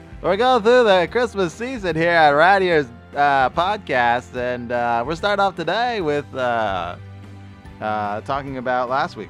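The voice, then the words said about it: Announcer-style radio voice. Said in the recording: “got me in my radio voice.”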